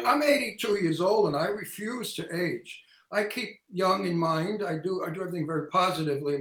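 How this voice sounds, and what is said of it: Older man, New York accent. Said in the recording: “an old man from Brooklyn with a New York accent”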